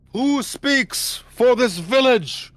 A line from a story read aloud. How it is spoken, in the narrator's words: in between horn blows, he kind of shouts out